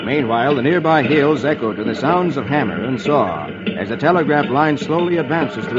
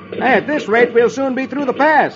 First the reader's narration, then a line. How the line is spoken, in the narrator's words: Ken says cheerfully